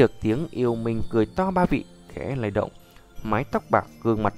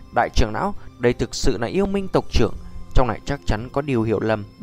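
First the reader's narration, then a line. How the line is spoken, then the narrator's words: Old man's cold shout. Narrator (Vietnamese): Lão giả quát lạnh nói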